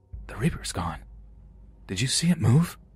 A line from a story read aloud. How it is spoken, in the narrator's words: I whisper over to my brother like